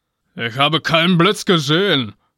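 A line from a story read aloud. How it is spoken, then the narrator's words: Growling. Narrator (German): knurrte Donner zurück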